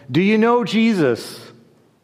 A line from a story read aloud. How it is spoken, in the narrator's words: shouted to him